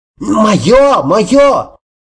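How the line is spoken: High-pitched cry. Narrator (Russian): Сергеич тонко выкрикнув

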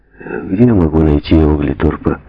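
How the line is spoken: Hesitant question. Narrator (Russian): неуверенно спросил он лифтера

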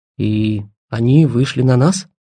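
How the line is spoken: Grumbling mutter. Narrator (Russian): буркнул Жарков

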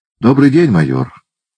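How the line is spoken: Plain. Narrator (Russian): сказал мистер Рикрофт

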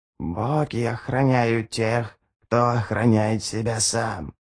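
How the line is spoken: Whispered. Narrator (Russian): прошептала она

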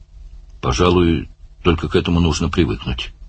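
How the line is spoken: Mumble. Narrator (Russian): пробормотал Барни

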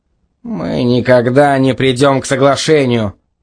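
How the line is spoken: Grumbled. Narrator (Russian): проворчал Демонс

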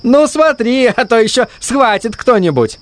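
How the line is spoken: Laughing. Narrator (Russian): засмеялся Дэрил и следом за ним Фред

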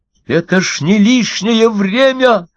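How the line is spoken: Loud shout. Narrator (Russian): закричал Стендаль на весь сквер

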